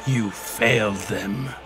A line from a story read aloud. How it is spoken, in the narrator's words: Dark Link hissed